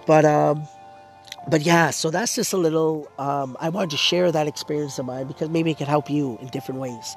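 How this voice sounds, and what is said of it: Hoarse, strained voice. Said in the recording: “My voice, once again, I apologize. You know that I'm losing my voice.”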